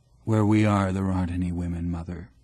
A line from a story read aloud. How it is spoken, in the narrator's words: say as calmly as I can